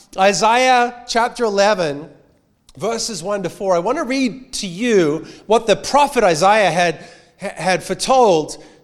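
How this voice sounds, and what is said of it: Australian accent. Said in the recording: “if you have an Australian Bible... It's just my accent.”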